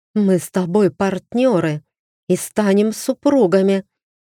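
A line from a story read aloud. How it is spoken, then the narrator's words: Hiss. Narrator (Russian): зашипела Асидора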